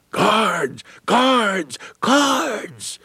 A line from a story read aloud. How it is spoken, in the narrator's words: one freedom rider yelled